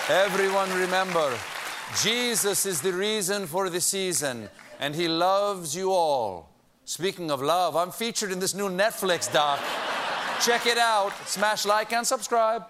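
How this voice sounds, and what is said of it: Put-on Argentinian-Italian accent. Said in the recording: “That's my Argentinian-Italian accent.”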